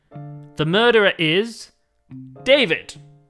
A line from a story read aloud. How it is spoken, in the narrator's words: he said dramatically